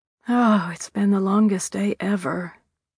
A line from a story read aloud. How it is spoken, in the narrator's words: sighed